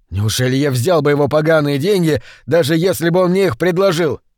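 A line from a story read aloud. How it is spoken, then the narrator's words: Furious roar. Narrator (Russian): взревел инженер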